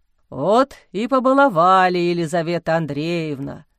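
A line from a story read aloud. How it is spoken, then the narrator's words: Deep voice, sated puffing. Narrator (Russian): Сыто отдуваясь, пробасил отец Амвросий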